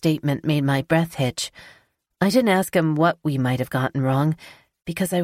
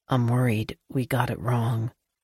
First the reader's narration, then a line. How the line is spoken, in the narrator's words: sighed heavily and then whispered